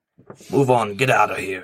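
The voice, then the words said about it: Authoritative commanding character voice. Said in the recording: “in an authoritative voice.”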